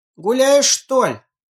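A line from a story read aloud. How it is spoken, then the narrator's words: Shouted after her. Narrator (Russian): крикнул он ей вдогонку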